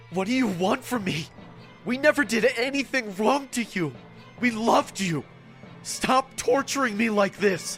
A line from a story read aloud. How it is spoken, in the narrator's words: I asked in a gasping voice